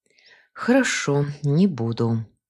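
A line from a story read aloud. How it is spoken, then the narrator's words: Sigh. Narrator (Russian): вздохнула я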